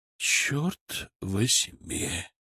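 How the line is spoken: Exhaled. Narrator (Russian): выдохнул Киселев

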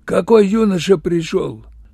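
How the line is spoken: Hoarse, low question. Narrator (Russian): Он хрипло, низко спросил

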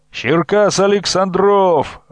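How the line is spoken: Group shout. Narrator (Russian): выкрикнули разведчики

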